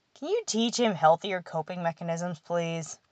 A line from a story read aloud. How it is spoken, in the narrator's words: Evan laughed